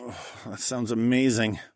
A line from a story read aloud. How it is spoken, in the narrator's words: I groaned